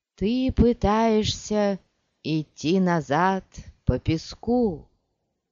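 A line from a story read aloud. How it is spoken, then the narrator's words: Singsong. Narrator (Russian): заговорила нараспев Алия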